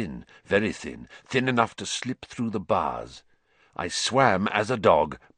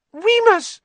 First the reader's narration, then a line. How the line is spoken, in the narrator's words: Pettigrew squeaked, writhing imploringly